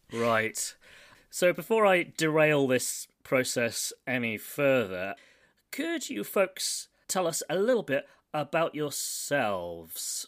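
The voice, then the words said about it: British English accent. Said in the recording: “I am in Milton Keynes, which is a place in the UK, as you probably deduced from my accent”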